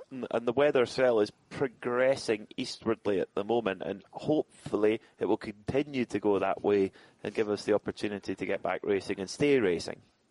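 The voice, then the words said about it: Soft Scottish accent. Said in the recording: “your nice soft Scottish accent.”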